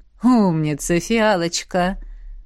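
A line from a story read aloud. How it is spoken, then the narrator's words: Wry snort. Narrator (Russian): хмыкнула ректор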